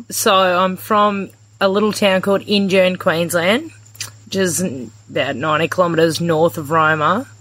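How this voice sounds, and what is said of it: Regional Queensland Australian accent. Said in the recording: “I'm sure our listeners have no doubt picked up on your accent... I'm from the West and we speak like this... Where does this accent come from?”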